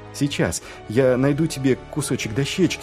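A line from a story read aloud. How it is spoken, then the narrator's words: Hurried promise. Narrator (Russian): пообещал Маркоу, торопливо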